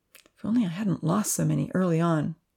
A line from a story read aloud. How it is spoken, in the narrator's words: Shaking his head sadly, he added